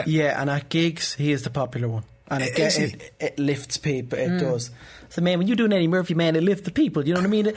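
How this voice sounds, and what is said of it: Eddie Murphy impression. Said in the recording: “your Eddie Murphy impression”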